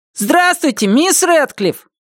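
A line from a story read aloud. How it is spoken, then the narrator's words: Shouted. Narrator (Russian): крикнул кто-то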